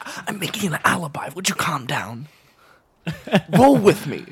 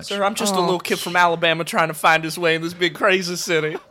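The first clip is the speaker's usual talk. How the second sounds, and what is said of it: Put-on Alabama Southern accent. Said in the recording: “Alabama ... make fun of my accent”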